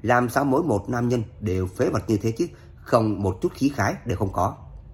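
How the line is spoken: Pouting mutter. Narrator (Vietnamese): Tiếu tiểu thư kia không khỏi bĩu môi lẩm bẩm

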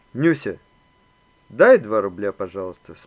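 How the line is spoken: Calm. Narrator (Russian): спокойно начал Иван

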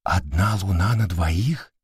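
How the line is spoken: Absorbed whisper. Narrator (Russian): прошептала Кира, увлеченно разглядывая необыкновенную картину

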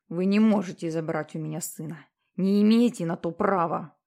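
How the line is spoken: Menacing. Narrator (Russian): сказал Питер грозно

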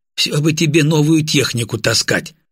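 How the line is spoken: Smirking grunt. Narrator (Russian): хмыкнул

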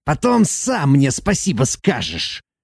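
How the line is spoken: Hissing. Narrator (Russian): Прошипел он

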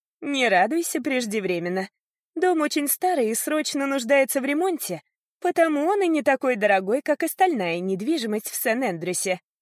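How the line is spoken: Laughing chuckle. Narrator (Russian): хохотнула Марли

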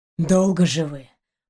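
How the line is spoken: Grumbling, gasping breath. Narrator (Russian): проворчал он, судорожно выдыхая

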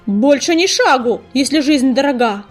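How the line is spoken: Roaring bark. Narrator (Russian): рявкнула песчаная буря

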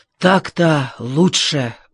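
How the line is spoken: Exhaled. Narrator (Russian): выдохнул он

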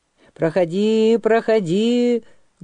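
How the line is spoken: Angry shout. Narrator (Russian): гневно крикнул главный жрец

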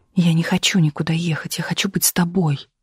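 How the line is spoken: Whispering. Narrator (Russian): шептала Галина

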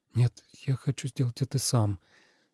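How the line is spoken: Uncertain mutter. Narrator (Russian): неуверенно пробормотал Тобиас

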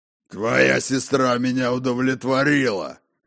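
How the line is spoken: Hoarse male growl. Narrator (Russian): хрипло прорычал мужчина

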